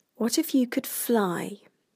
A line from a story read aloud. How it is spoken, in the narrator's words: Lydia asks softly